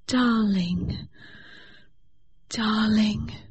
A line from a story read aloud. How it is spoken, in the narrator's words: she murmured